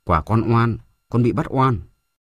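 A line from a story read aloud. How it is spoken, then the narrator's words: Trembling. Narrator (Vietnamese): Bính run rẩy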